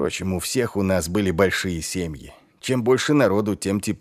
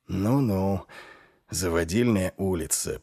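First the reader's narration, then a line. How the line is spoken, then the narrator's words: Muttered. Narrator (Russian): пробормотал Ваймс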